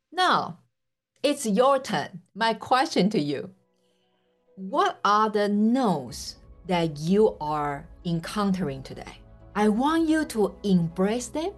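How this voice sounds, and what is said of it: Speaks with a strong accent. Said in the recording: “this messed up girl with terrible accent”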